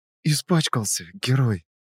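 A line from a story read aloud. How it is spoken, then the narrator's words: Quiet. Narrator (Russian): Так же тихо проговорила она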